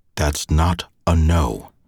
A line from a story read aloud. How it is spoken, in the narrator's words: Through gritted teeth, said